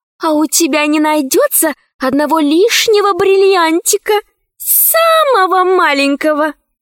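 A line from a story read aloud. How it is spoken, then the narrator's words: Sweet catlike voice. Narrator (Russian): спросила Заури кошачьим голоском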